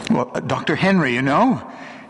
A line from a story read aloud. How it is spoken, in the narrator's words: he stammered